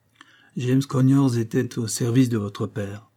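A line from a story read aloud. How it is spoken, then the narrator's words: Sad voice. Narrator (French): dit d'une voix triste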